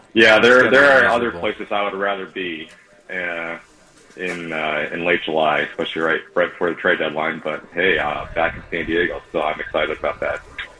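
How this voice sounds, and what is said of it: Slightly hoarse, partly lost voice. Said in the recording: “A little under the weather on the road trip. I'm feeling better now, but I still lost my voice a little bit.”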